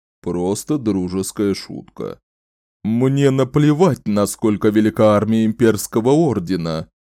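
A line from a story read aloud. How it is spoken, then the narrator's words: Growl. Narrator (Russian): Прорычал министр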